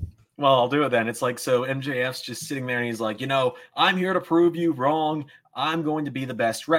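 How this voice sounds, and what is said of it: Usual voice. Nothing is said of it.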